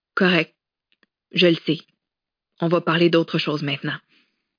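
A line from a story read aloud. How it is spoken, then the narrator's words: Flat toneless voice. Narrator (French): Elle avait dit d'une voix blanche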